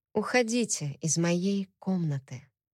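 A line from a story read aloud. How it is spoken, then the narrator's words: Quiet. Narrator (Russian): тихо сказала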